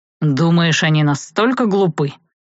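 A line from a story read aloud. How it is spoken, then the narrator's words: Annoyed snort. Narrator (Russian): Савелий с досадой хмыкнул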